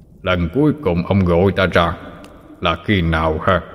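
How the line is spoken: Deep booming voice. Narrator (Vietnamese): Một giọng nói ồm ồm vang lên

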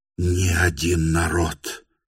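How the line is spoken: As if reading aloud. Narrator (Russian): начал он, как бы читая по строкам

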